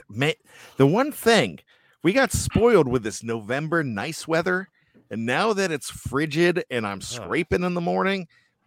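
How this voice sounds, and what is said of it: Pittsburgh Yinzer accent. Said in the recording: “that bad Yinzer accent again ... that bad Yinzer accent”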